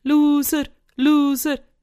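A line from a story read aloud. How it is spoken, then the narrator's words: Called out. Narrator (German): rief Sam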